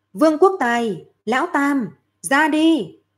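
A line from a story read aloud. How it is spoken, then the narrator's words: Loud shout. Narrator (Vietnamese): Lâm Phàm lúc này lớn tiếng hô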